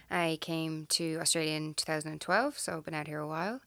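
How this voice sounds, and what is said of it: Irish accent. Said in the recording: “Originally from Ireland ... People tell me I still haven't lost my accent. ... You haven't.”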